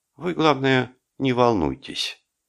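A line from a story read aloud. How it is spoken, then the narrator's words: Gentle. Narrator (Russian): мягко сказал Френч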